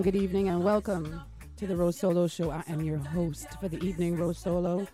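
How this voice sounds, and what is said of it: Strained, unwell-sounding voice. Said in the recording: “My voice is strained. I'm not feeling well”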